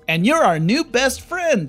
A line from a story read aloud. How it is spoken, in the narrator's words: yells Yakko